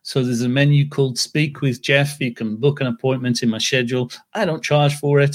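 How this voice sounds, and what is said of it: English accent. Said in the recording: “I live in England, as you can probably tell from my accent... most people say, where the heck are you from? I can't tell where your accent is from. I'm in England”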